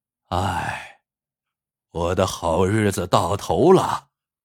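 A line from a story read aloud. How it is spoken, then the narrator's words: Sighing. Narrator (Chinese): 乞丐叹了口气，说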